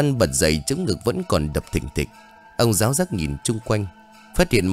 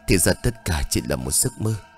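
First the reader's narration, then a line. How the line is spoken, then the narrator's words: Panting. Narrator (Vietnamese): thở hổn hển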